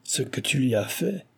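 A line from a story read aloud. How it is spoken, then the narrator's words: Fierce sneering. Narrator (French): ricana férocement le japonais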